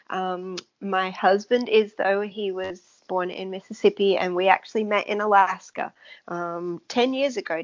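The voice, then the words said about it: Non-American English accent. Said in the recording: “I am not from the United States, as you can probably tell my, by my accent.”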